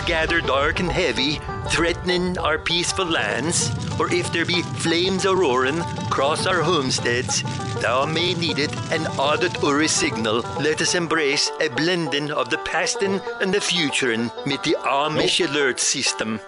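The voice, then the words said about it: Mock Amish accent, comically exaggerated. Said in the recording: “Why does the Amish accent sound like the Swedish chef?”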